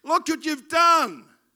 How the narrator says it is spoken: cried the carpenter

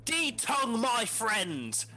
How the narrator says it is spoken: shout

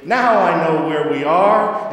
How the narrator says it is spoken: Rabbit said triumphantly

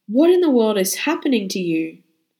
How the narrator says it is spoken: When she sees me in this condition, she exclaims

